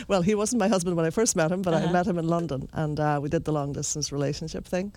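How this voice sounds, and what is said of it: Irish accent. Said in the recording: “your lovely accent. And so, of course, you come from Ireland.”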